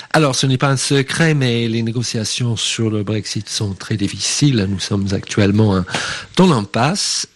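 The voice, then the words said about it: Irish accent speaking French. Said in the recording (French): “vous entendez bien mon accent, je suis irlandais”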